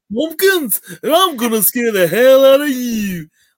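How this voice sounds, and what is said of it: Deliberately bad British celebrity impression. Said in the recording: “a really bad like Paul McCartney impression ... it just sounds like a really bad Paul McCartney”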